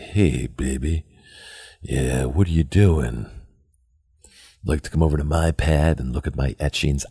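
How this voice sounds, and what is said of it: Put-on seductive sexy voice. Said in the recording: “hopefully I can sound sexy ... that's how sexy I would have sounded”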